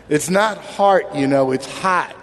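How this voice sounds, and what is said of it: Imitated Long Island accent. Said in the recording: “his Long Island uh, accent?”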